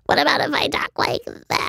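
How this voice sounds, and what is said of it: Withered old creature voice. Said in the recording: “I sound like a withered old girl... now I can imagine you're some creature”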